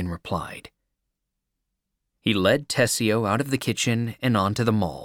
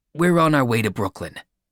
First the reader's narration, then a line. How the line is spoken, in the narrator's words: said quickly